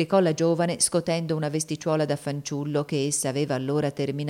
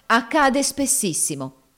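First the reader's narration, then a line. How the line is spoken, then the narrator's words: Woman exclaiming. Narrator (Italian): esclamò la prima signora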